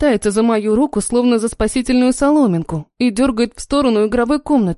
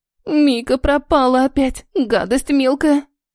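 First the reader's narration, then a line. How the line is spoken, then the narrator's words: Girl nearly sobbing. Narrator (Russian): Едва не всхлипывает девушка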